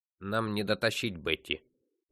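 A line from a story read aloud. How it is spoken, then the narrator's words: Grumbling. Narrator (Russian): проворчал Фрейзер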